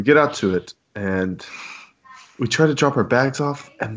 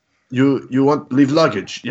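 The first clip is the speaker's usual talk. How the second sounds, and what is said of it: Thick Russian accent. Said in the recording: “Very thick Russian accent.”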